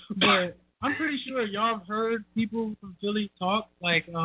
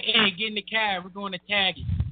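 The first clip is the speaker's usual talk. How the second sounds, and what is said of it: Imitated Boston accent, dropped Rs. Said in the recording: “cats from Boston. I love that accent ... Where's the R?”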